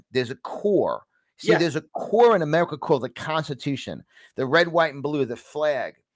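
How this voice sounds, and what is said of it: Distinct New York accent. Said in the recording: “I have a very distinct New York accent”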